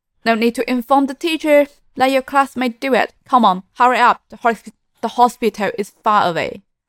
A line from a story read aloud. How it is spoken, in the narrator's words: urgently grabbed her and said